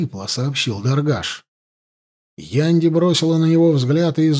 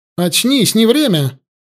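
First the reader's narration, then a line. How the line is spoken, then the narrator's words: Sharp shout. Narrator (Russian): резко крикнула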